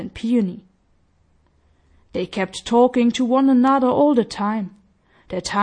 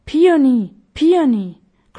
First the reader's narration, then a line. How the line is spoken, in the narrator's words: cried Violet to her brother, who had gone to another part of the garden